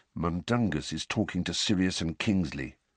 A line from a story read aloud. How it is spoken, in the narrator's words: Fred muttered